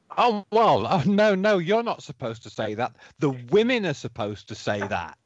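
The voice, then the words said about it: English accent. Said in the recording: “the accent, it's lovely. I could listen to it all day ... my best English accent ... his accent just adds some credibility”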